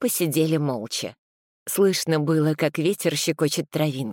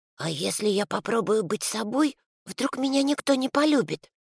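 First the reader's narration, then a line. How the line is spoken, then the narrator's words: Whispering small creature. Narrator (Russian): шепнул зверек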